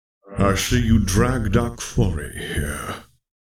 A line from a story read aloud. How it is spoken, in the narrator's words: he said, his voice a deep growl of a baritone